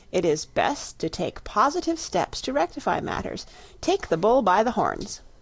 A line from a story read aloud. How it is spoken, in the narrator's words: told herself firmly